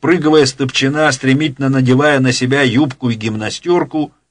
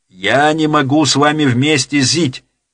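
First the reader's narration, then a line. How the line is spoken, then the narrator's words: Shouting out. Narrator (Russian): выкрикнула Ляля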